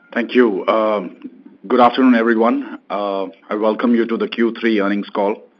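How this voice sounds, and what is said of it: Voice affected by sore throat. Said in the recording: “I have a sore throat because of onset of a viral”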